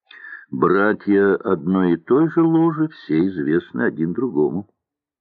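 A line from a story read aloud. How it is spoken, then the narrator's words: Plain. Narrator (Russian): сказал Андрей Андреевич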